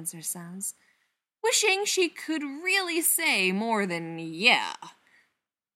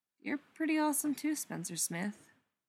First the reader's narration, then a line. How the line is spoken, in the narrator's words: Brendan says quietly